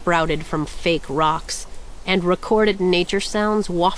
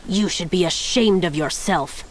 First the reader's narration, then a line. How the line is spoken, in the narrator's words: spat